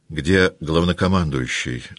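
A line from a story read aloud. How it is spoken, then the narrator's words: Plain. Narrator (Russian): спросил Болконский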